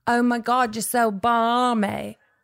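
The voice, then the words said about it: Attempted British accent, sounds Australian. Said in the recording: “British slang ... I'm going to try it ... Mine's pretty bad. I go a little like Australian.”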